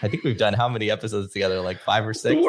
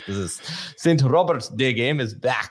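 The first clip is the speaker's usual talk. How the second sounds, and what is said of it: Put-on Scottish accent. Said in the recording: “I'm saying that with a Scottish accent”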